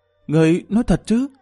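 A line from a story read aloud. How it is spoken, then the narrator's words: Trembling question. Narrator (Vietnamese): Tiêu Ngọc Sương run rẩy hỏi lại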